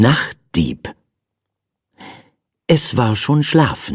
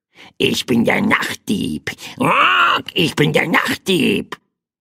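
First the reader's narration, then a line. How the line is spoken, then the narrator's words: Small bird's croak. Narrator (German): krächzte das kleine Federvieh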